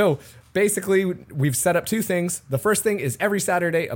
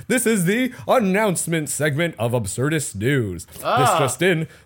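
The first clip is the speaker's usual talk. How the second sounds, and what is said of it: Mock newscaster voice. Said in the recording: “This is my, like, newscaster voice.”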